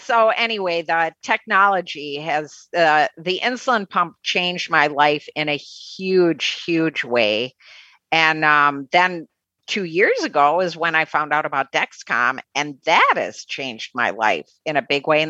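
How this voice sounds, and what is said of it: Midwestern American accent. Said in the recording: “You held on to your Midwestern accent”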